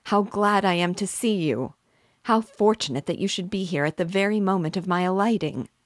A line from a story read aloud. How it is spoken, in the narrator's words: exclaimed he